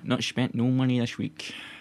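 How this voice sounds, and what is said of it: Put-on lower-class Glasgow accent. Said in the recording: “that was my lower class Glasgow accent.”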